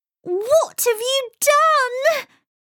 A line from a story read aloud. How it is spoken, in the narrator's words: She wailed